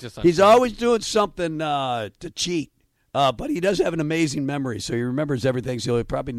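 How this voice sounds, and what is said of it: Usual voice. Nothing is said of it.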